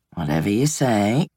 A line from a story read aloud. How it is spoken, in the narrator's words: Red muttered